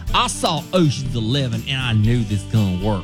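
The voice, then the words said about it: Put-on southern accent. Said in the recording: “has a very southern accent.”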